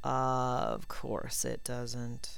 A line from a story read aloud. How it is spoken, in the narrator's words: Draco said lazily